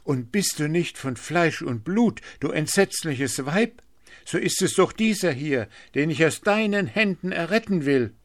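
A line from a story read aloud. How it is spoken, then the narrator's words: Cried out in terror. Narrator (German): rief Blauäuglein in ihrer Herzensangst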